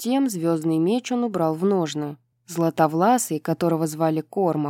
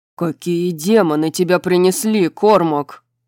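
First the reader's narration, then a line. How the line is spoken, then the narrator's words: Growled. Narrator (Russian): прорычал Рун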